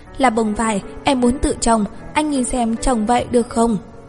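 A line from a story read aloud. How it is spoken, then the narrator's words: Timid quiet reply. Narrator (Vietnamese): Mộ Già cỏ rúm người lại, nhỏ giọng đáp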